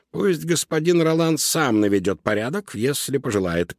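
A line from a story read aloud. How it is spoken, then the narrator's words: Grumbling. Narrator (Russian): пробурчала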